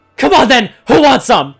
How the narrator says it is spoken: Teeth bared and a snarl forcing its way out of his mouth, David shouted

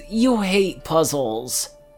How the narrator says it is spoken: Rarity exclaimed, the dragon barely containing the urge to yell

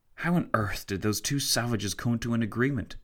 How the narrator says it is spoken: Tancred whispered to Fitzwilliam

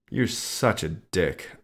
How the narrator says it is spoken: I muttered

